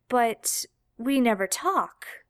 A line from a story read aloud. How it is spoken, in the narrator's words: Jared said slowly, eyebrows furrowed in confusion